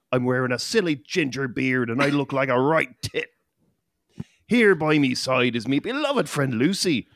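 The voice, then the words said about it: Bad fake Irish accent. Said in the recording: “bad and fake Irish accents ... I got me accent from Back to the Future 3”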